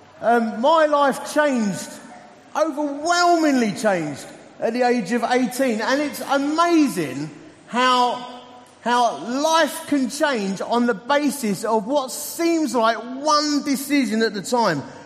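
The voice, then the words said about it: Essex English accent. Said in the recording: “As you can tell from my accent, I'm an Essex boy.”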